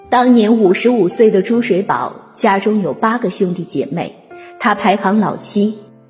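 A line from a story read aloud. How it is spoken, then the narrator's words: Sighing. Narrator (Chinese): 他叹息道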